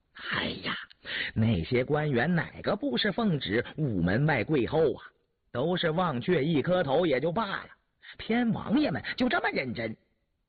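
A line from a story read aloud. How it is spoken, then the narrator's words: Laughing. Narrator (Chinese): 允禄笑了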